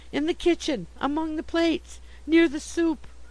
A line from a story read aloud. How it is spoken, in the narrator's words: gasped